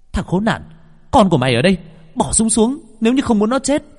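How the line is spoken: Shout. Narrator (Vietnamese): Hồng Anh hét lên

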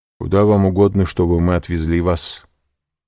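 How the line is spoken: Plain. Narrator (Russian): спросил президент

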